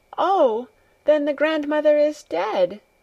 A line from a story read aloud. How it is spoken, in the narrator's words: she cried out